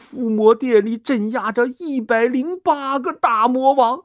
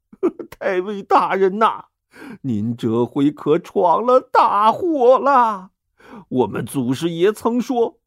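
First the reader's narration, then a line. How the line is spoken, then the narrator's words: Tearful voice. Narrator (Chinese): 领班道士带着哭腔说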